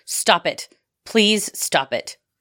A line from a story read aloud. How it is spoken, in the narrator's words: Peggy told him in a calm, strong voice